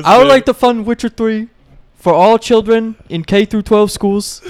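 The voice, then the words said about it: Imitates another person's voice. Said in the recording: “how is your Bernie Sanders so fucking good? ... it's a really good voice ... I just got the cadence down”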